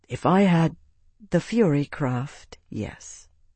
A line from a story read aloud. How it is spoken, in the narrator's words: she said quietly